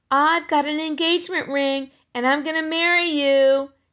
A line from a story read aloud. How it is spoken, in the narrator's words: yelled Ramona after Henry